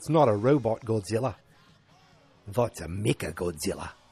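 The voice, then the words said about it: Put-on New Zealand accent. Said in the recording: “That's my New Zealand accent.”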